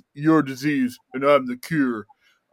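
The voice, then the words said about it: Imitates another person's voice. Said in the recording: “my terrible Stallone impression ... That's pretty good, actually. Not too bad.”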